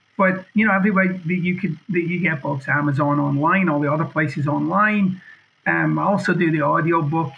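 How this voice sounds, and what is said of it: Scottish accent. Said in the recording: “You get this awesome Scottish accent.”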